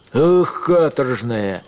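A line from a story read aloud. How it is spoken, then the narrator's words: Shout at a dog. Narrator (Russian): крикнул на овчарку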